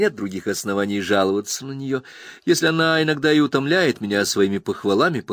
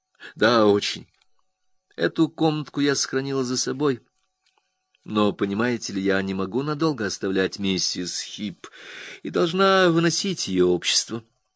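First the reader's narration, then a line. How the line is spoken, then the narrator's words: Calm. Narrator (Russian): спокойно сказала Агнес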